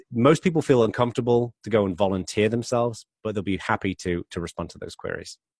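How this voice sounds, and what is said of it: British English accent. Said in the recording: “The accent because half of my family lives in England. And so I really enjoy hearing the accent. ... British, you always sound so smart”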